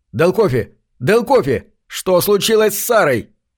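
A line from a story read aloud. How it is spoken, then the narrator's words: Shouting into microphone. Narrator (Russian): Я кричал в микрофон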